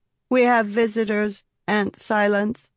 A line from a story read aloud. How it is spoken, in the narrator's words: Sabruki said in a cold, monotone voice